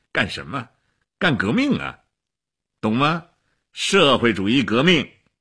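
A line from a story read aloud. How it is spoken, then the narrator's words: Laughing. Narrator (Chinese): 齐比索夫笑起来了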